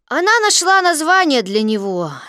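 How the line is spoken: Lazy, chewing grass. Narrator (Russian): сказал Кристофер Робин, лениво пожевывая травинку

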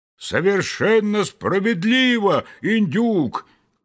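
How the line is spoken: Loud shout in unison. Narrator (Russian): крикнули все разом так громко

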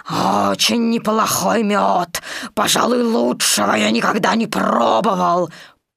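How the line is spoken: Growled. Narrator (Russian): 587-й слонопотам прорычал

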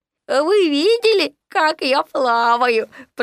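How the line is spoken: Delighted squeak. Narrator (Russian): пропищал Ру в восторге

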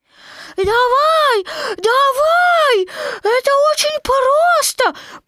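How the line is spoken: Tiny squeak. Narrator (Russian): пропищал крошка Ру

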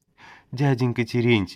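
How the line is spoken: Sobbing. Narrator (Russian): всхлипывает Фёкла

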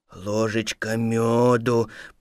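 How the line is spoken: Bear cub muttering to himself. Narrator (Russian): пробормотал медвежонок про себя

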